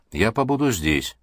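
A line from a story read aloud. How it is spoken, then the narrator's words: Dry, curt. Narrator (Russian): сухо сказал ученый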